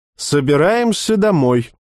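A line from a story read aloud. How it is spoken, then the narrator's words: Loud public announcement. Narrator (Russian): громко сказал Никифоров, так, чтоб все услышали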